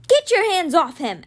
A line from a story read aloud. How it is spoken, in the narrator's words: Alex yelled, furious